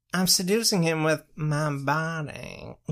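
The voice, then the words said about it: Creepy old man character voice. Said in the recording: “That does not sound like Tree Trunks. That just sounds like a creepy old man.”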